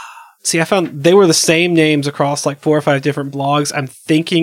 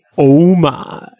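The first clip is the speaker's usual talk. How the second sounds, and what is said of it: Poor George Takei impression, deep. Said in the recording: “my best George Takei impersonation. Which is terrible ... He's got a good deep voice.”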